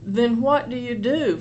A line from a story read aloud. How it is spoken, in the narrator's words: Floyd said in that frustrating, retarded drawl